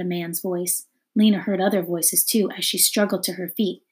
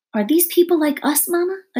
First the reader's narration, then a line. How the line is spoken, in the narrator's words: a child cried